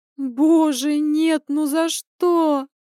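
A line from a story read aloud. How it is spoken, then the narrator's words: Moaning aloud. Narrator (Russian): простонала я вслух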